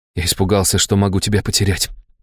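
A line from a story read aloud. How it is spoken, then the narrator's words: Whisper. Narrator (Russian): прошептал я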